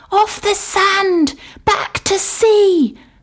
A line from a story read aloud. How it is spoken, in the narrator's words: cried the snail